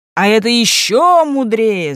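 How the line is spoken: Shouting courtiers. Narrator (Russian): закричали придворные

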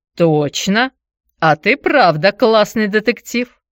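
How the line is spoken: Chuckling. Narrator (Russian): хохотнул Никита

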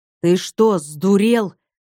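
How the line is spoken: Through gritted teeth. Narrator (Russian): процедил бывший спецназовец

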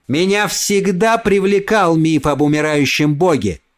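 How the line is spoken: Shouting. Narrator (Russian): прокричал Эсбери

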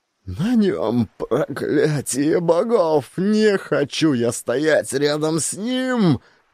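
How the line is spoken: Shrieking. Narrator (Russian): Взвизгнул Сигурд

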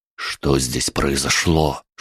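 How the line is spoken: Whisper. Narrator (Russian): шепнул я Трубецкому, наклонившись к уху

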